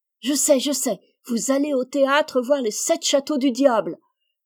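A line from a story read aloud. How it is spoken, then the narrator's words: Exclaimed. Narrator (French): s'écria-t-elle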